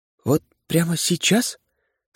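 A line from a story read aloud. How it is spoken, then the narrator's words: Trembling voice. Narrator (Russian): спросила дрогнувшим голосом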